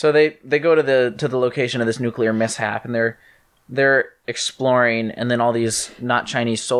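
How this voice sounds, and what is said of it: Usual voice. Nothing is said of it.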